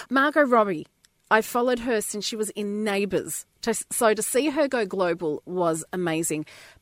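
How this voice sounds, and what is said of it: Australian accent. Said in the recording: “we've got to have one Aussie on for me... Is my accent that good?”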